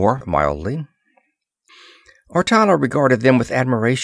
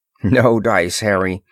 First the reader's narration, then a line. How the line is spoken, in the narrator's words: Ross assured him firmly